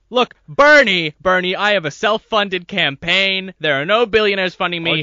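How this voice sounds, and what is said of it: Inconsistent Donald Trump impression. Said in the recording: “my poor Donald Trump impression ... it's better than mine ... It's kind of off and on. It's kind of bipolar. That can't decide what it wants to be.”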